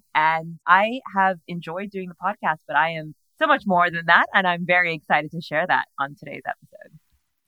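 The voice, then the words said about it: American Californian accent. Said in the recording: “the accent is misleading. I think a lot of people think I'm based in the US. That accent isn't going to change. I always say I'm Californian”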